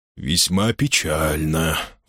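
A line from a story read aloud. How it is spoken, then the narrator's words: Sighing. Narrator (Russian): вздохнул Арлингтон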